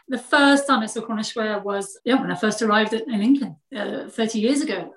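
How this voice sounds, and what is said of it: Slight foreign accent. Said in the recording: “Teeny tiny hint of an accent. ... I don't think I can get rid of the accent now”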